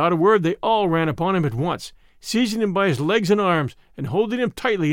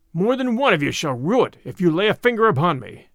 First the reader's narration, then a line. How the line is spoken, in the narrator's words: cried Little John